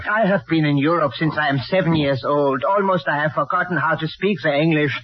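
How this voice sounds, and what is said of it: Foreign accent. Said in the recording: “With that accent? Don't make me laugh.”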